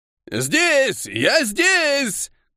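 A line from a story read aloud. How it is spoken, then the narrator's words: Shouting old man. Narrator (Russian): крикнул старик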